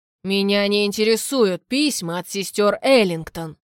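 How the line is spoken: Barked. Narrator (Russian): рявкнул на изумленного Абрахама

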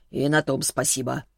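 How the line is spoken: Wry snort. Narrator (Russian): хмыкнул Селиванов

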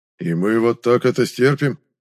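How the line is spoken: Menacing rumble. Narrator (Russian): грозно пророкотал барон

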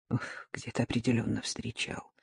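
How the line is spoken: Mutter. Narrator (Russian): пробормотал он

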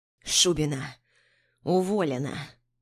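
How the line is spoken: Hoarse former boss. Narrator (Russian): Хрипит мой теперь уже бывший начальник

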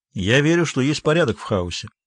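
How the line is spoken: Dry. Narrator (Russian): сухо ответил Бенедикт Споут

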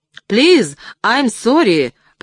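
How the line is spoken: Breathless shout. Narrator (Russian): прокричал я, задыхаясь

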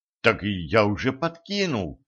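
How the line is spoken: Timid reply, shop clerk. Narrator (Russian): робко откликнулся приказчик

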